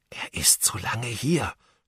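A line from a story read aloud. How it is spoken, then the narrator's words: Whispering. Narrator (German): flüsterte Ben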